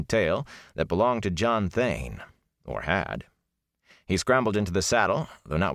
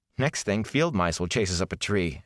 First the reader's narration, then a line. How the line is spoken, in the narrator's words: Egwene said with an unsteady chuckle